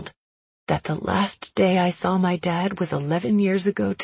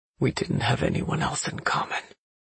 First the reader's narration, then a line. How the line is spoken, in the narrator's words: he says quietly